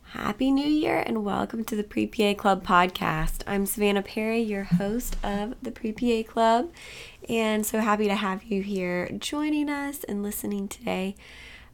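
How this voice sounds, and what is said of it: Hoarse voice from a cold. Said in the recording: “If you can't tell, I have a little bit of a cold, so losing my voice.”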